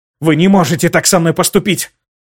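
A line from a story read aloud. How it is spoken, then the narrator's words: Hissed through clenched teeth. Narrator (Russian): Сквозь зубы прошипела Аделина Башар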